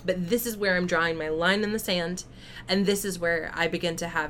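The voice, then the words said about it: Voice getting louder. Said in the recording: “as you can tell because my voice is getting louder”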